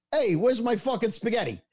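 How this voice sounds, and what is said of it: Exaggerated Brooklyn Italian accent. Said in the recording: “When you do the Italian accent, it's like, talking like this ... he's got that Brooklyn. ... Oh, it's flat out immigrant.”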